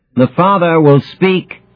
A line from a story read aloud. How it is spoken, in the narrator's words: she says, her voice as clear and crisp as a flute solo